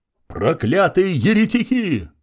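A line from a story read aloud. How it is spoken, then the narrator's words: Bishop yelling. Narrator (Russian): вопил епископ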